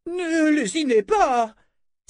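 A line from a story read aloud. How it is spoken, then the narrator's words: Crying out. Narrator (French): s'écria Dame Ordite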